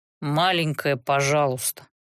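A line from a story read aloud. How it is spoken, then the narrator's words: Grumble. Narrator (Russian): проворчал Рест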